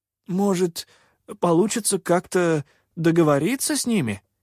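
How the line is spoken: Uncertain suggestion. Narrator (Russian): неуверенно предположил кто-то

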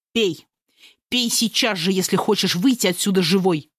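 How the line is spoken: Growl. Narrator (Russian): прорычал он

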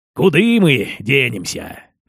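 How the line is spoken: Gruff mutter. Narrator (Russian): буркнул казак

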